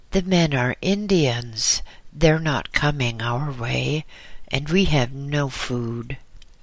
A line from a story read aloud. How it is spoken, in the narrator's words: he said sadly